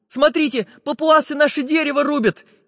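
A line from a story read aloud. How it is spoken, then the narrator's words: Frightened interruption. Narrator (Russian): испуганно прервал их Чижик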